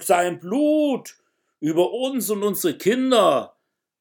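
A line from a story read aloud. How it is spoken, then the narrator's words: Whole crowd shouting. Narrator (German): rief das ganze Volk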